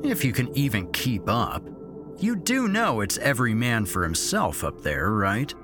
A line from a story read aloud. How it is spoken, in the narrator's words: Derek had said, sneeringly